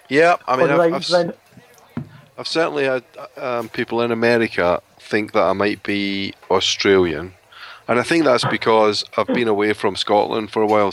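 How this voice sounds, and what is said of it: Scottish accent, somewhat mixed. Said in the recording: “you're from Scotland ... my accent is a little bit confused ... They know it's not English”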